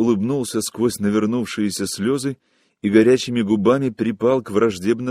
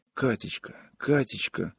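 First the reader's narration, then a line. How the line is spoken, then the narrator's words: Pleading whisper. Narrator (Russian): шептал он умоляюще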